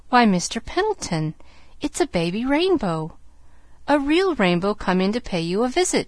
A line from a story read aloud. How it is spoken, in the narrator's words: she exclaimed